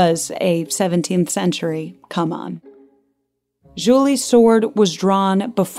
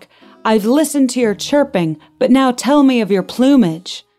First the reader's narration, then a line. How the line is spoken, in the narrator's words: Delbert shouted back